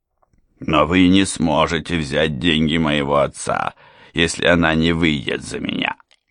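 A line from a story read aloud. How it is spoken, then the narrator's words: Growled. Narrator (Russian): прорычал Морган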